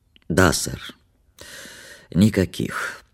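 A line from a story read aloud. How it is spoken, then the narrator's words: Sleepy, hoarse, stifling yawn. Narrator (Russian): подтвердил он сонно своим хриплым голосом без особого почтения и с трудом подавил зевок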